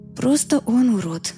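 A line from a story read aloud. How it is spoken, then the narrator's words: Evasive whisper. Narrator (Russian): уклончиво прошептала я в ответ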